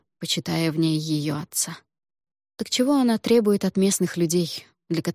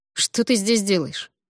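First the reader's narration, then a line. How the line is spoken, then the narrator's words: Asked coldly. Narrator (Russian): холодно спросил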